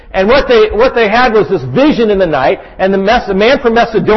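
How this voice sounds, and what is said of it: Usual voice. Nothing is said of it.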